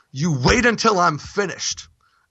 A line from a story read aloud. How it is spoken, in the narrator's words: the priest angrily and shouting